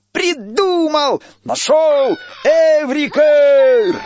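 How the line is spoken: Joyful shouting. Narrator (Russian): Радостно кричал он

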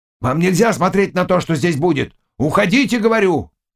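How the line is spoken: Sudden shout. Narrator (Russian): Вдруг он крикнул деду

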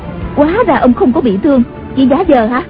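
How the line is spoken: Surprised and angry. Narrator (Vietnamese): Tần Hồng Miên ngạc nhiên giận dữ nói

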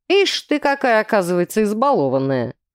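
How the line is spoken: Snorting. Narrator (Russian): хмыкнул мужчина

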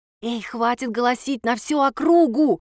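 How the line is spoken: Loud whisper. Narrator (Russian): громко зашептала

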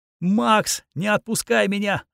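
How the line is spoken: Shrieked. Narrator (Russian): завизжала она

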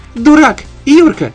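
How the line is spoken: Shriek. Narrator (Russian): Взвизгнула она

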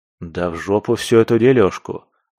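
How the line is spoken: Scoffing. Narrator (Russian): фыркнул

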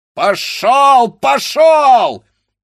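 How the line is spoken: Blacksmith shouting. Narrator (Russian): закричал кузнец

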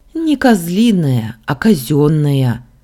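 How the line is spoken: Sighing correction. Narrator (Russian): вздохнув, исправила я

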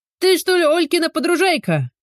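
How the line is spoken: Loud call from distance. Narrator (Russian): Громко раздалось от забора

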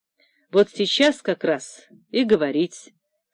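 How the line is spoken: Calm, pointedly indifferent. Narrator (Russian): спокойно заметил Лосев, подчеркнуто равнодушно заметил

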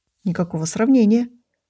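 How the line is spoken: Fervent mutter. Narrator (Russian): с жаром пробормотал он

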